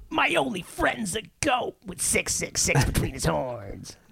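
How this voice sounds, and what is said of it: Pinched voice imitating another person. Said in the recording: “my Dave Mustaine impression ... That was actually a surprisingly good Dave Mustaine ... It's really how he sounds ... He does sound like his cornhole is pinched”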